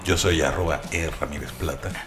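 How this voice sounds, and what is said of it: Put-on fake announcer voice. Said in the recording (Spanish): “ahorita sí hice voz, traté de hacer voz ... sí, fingida ... Ese ya suena como de Golden Choice”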